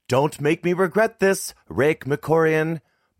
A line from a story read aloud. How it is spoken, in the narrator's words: Mom yelled